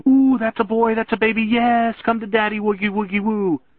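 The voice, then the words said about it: Very high-pitched cooing baby talk. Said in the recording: “I heard my voice go up 3 octaves until I sounded like my little sister in the middle of a puppy litter.”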